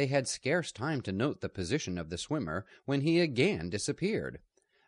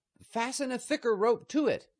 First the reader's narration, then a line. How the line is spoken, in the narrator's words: shouted